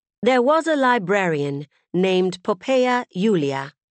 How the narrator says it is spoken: Claire said

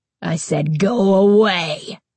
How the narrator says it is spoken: Carly Beth snarled in a voice so deep, so terrifying, that it frightened even her

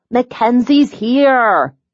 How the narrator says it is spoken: Dylan shouted

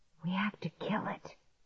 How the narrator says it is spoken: Clark whispered

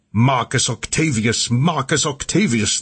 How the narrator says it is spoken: they shouted out

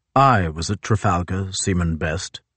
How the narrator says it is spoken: Sir John said stiffly

